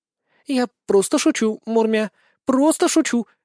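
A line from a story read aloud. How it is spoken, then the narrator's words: Frightened reply. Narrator (Russian): испуганно ответила кошка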